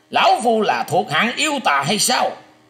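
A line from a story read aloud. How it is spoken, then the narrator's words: Fierce loud shout. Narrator (Vietnamese): Đôi mắt của Lôi Minh Tiêu chói rực những tia sáng hung tợn, quát to lên rằng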